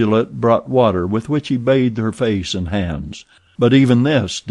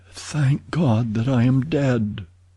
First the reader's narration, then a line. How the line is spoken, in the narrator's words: she murmured